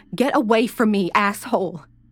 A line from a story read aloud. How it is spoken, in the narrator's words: She screamed